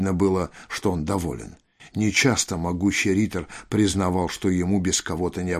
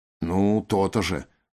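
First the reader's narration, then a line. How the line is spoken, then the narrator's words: Grumbled. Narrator (Russian): проворчал Рой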